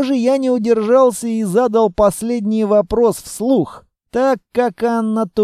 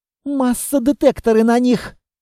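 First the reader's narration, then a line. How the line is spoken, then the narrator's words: Groaning. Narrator (Russian): Я застонал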